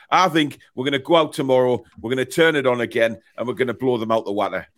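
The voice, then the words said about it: Geordie accent. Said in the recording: “the Geordie accent ... it was great. I was admiring it.”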